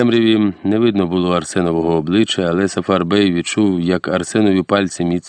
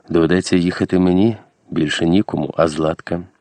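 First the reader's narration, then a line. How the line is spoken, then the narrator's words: Heavy sigh. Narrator (Ukrainian): Козак зітхнув ще тяжче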